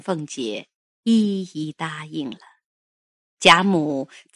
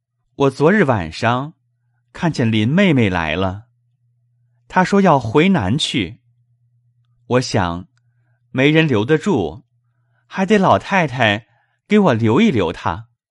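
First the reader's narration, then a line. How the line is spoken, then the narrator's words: Laughing. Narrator (Chinese): 宝玉笑道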